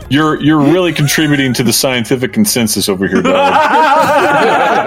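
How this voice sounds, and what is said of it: Yelling, heated loud voice. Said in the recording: “I'm yelling. I got a little heated.”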